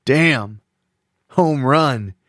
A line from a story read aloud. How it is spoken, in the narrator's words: Clyde yelled